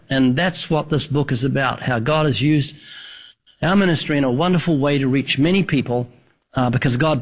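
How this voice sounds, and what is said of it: New Zealand accent. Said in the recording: “the accent. I was thinking maybe Northern Alabama, but what? New Zealand.”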